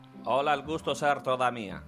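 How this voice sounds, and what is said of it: Villain character with foreign accent. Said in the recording (Spanish): “con ese acento particular que tiene, porque viene de la... Viene de la del antiguo oeste de Europa.”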